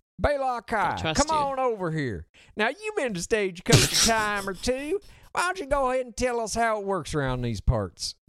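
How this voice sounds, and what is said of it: Put-on Southern US twang. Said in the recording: “put on a little southern accent, a little twang”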